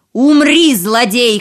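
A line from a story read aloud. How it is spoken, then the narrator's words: Shout. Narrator (Russian): крикнул султан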